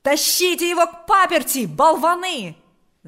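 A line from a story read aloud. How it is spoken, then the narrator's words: Annoyed shouting. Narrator (Russian): закричал отец Паисий, досадуя на неожиданную помеху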